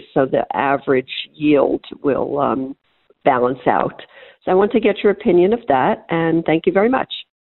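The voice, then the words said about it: New York accent. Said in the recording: “clearly was from New York, if I could tell the accent correctly”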